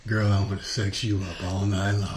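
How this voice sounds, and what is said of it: Deep boy band singer voice. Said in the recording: “Every fucking boy band had that dude with a deep voice”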